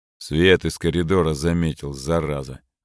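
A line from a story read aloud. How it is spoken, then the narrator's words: Annoyed grumble. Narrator (Russian): с досадой в голосе буркнул Трёшников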